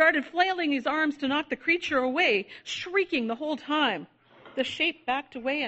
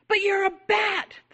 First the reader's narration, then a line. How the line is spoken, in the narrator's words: the child cried